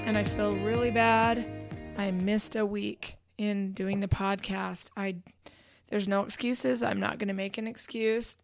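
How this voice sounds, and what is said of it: Voice slightly off from a cold. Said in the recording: “My voice is a little off. I've got a little bit of a cold,”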